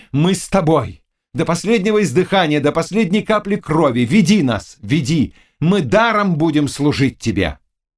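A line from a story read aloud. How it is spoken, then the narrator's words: Crowd shouting. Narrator (Russian): кричали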